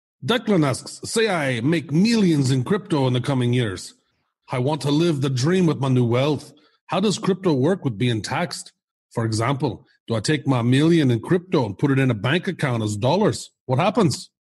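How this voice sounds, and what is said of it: Put-on Scottish accent. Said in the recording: “read this with the Scottish accent”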